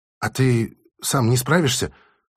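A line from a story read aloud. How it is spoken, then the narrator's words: Timid question. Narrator (Russian): робко поинтересовалась Алиса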